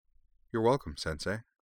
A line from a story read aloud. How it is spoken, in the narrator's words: said Anne